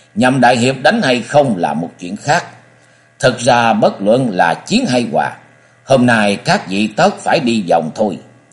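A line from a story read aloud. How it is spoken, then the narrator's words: Old man laughing loudly. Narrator (Vietnamese): Lão nhân cao gầy phá lên cười lớn một tràng đoạn nói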